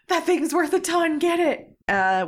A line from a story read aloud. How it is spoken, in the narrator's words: The bandit captain is in the midst of shouting